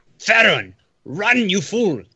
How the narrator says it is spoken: the doctor is going to yell

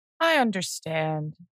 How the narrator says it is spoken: Ned said softly

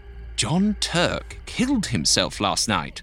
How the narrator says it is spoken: the man said eagerly

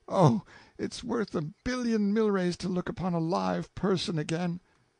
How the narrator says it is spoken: eagerly, saying

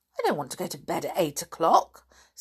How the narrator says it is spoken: said Elizabeth indignantly

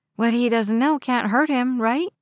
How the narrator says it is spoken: Darren laughed too, a confident, easy laugh

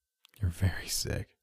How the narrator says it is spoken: he said in a quiet voice

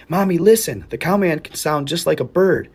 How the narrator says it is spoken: Tim said, pointing excitedly

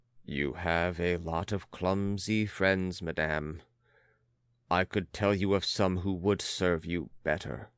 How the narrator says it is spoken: he said in an undertone

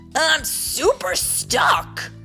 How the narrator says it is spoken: DJ Catnip cried

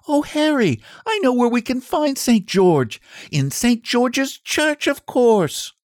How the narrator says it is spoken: Effie … with joy and cried

